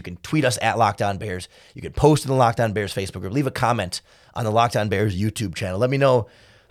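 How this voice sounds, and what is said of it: Raspy, rough voice. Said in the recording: “how bad my voice sounds... I know it doesn't sound great. It's raspy, it's rough”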